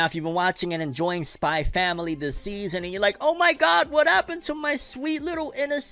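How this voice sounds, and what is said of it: Usual voice. Nothing is said of it.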